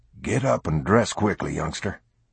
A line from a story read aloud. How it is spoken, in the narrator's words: Noah whispered hoarsely